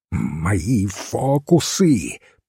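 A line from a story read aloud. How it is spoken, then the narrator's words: Hissing. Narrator (Russian): прошипел его бледный соперник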